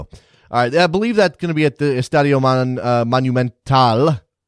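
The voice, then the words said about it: Poor attempt at Spanish pronunciation. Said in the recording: “That's my terrible accent right there. I'm working on Spanish”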